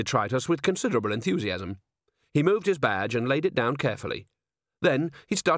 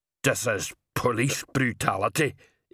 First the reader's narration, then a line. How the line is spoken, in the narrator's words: Igneous muttered